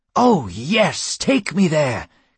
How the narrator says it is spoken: cried Hermes

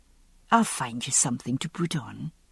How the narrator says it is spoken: she murmured

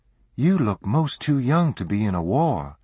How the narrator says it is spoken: the young woman continued more kindly

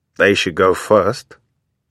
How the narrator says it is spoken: Hopkins mutters

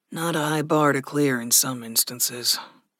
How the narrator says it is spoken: Gregory sighed

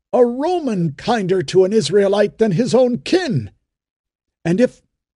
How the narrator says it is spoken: cried Ben-Hur

